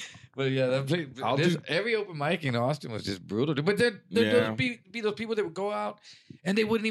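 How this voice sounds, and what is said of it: Usual voice. Nothing is said of it.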